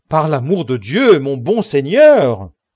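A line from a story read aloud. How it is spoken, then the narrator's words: Exclaimed. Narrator (French): s'écria Sancho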